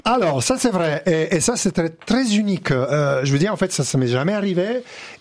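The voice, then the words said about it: Italian accent in French. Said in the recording (French): “on vous a reproché votre accent ... c'était trop italien”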